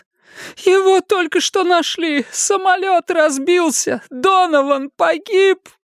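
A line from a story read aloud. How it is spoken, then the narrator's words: Sobbing. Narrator (Russian): Аннет … зарыдала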